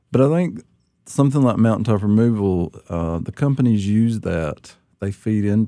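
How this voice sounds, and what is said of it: Appalachian accent. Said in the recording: “lots of Appalachians will say, I had to learn how to talk right. I've got a bad accent ... I kept my accent, but I never could get rid of it”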